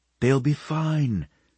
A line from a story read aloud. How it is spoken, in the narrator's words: Bernice repeated gently